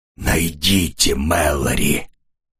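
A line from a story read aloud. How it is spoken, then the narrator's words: Hoarse rasp. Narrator (Russian): прохрипела она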